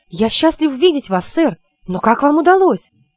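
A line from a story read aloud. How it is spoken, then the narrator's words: Exclaiming. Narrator (Russian): Гриттир воскликнул, обращаясь к остальным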